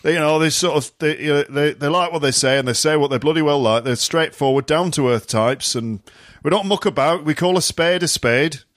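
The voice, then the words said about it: Put-on Yorkshire accent. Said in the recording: “Is that a Yorkshire accent? ... Yeah, it sounds like my granddad.”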